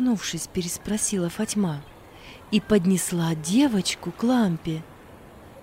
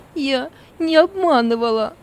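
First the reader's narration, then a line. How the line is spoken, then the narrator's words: Tearful speech. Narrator (Russian): сквозь слезы проговорила Зора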